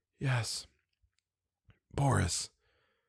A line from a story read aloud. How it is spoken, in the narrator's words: I could whisper